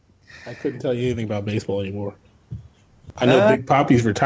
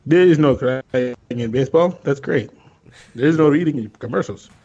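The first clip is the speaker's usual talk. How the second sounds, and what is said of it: Big Papi impression. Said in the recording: “my Big Poppy imitation ... you pretty much nailed that”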